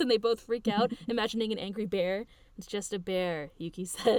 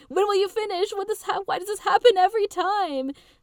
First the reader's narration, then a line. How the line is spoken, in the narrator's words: Michan screaming on the phone